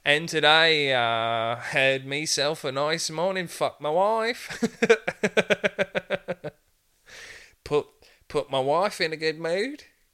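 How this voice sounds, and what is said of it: Put-on Australian-sounding accent. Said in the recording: “Sounds Australian, that guy, kind of.”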